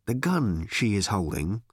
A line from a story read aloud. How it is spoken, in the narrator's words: said Ford quietly